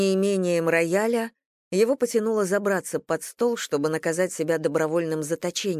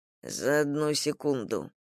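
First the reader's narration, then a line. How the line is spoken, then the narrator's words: Lost mumble. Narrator (Russian): потерянно пробормотал Стариков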